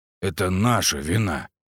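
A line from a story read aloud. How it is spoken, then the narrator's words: Muttered. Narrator (Russian): пробормотал Андрей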